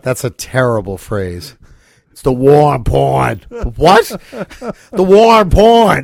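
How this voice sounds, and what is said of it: Put-on Boston accent. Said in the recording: “if you have a Boston accent”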